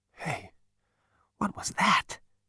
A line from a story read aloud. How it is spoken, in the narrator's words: muttered voicelessly